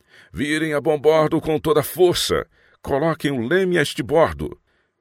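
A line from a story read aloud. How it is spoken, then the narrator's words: Shouted order. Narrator (Portuguese): gritou para a tripulação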